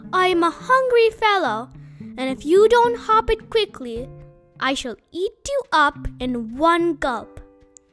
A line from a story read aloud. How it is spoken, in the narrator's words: he said softly